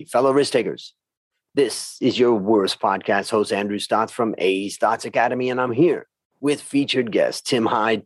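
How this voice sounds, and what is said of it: Polished radio announcer voice. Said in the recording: “radio voice, wow, that's impressive”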